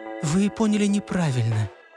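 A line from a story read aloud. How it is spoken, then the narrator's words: Gentle objection. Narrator (Russian): мягко возразила Маша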